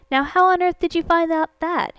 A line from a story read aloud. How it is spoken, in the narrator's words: cried